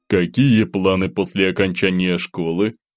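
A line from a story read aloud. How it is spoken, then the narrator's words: Count's low voice. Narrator (Russian): низким голосом произнес граф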